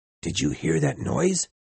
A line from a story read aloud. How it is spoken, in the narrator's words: one of the seamen whisper to another